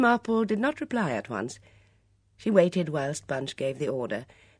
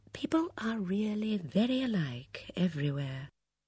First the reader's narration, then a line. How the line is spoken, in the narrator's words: She murmured under her breath